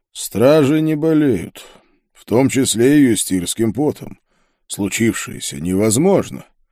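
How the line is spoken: Muffled, pensive. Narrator (Russian): Пауль задумчиво ... глухо произнес

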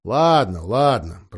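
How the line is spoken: Grumbling. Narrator (Russian): проворчал Лум

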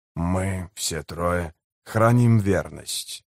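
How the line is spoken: Muttered. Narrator (Russian): пробормотал он

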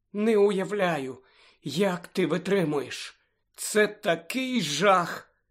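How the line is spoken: Sympathetic. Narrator (Ukrainian): співчутливо мовила

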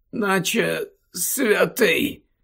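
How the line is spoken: Mumbling. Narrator (Ukrainian): пробурмотів

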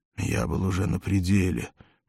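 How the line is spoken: Mumbled. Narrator (Russian): бормотал Валерий

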